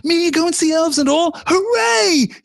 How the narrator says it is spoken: shouted, and then burst into tears

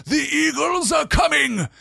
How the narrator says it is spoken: cried in a loud voice ringing above the din

